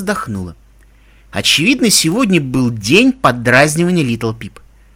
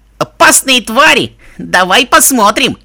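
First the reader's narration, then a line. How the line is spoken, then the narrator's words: Shouted poor voice imitation. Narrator (Russian): Изображая мой голос, плохо надо сказать, он прокричал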